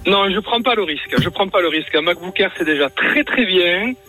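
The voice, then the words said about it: Singsong regional French accent. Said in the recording (French): “J'entends ta petit euh, accent chantant.”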